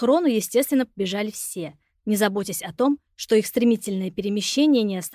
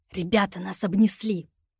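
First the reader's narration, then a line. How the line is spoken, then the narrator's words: Furious hiss. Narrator (Russian): Антон яростно прошипел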